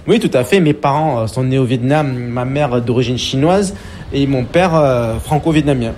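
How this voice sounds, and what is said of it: Slight Marseille southern French accent. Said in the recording (French): “une pointe d'accent ... plutôt du sud que du nord ... une petite touche d'accent marseillais”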